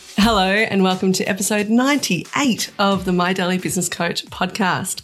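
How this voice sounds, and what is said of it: Excited voice. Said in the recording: “Can you hear in my voice? I'm excited.”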